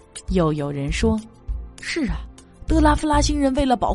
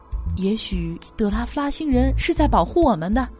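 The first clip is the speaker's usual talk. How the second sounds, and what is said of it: Quiet, hushed speech. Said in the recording (Chinese): “有人小声说”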